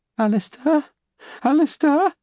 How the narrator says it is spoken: called out in tears, her voice quavering

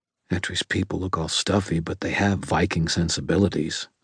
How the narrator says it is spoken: I said quietly

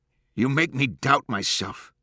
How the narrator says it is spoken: he said fiercely

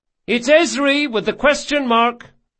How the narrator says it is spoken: she shouted

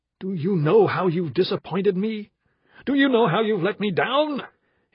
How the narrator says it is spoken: His voice grew louder and louder

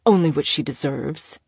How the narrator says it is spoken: he stated coldly

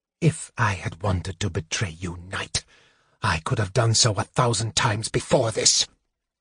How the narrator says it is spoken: Raceland hissed

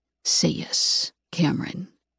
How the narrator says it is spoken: With his lips against my ear, he whispers

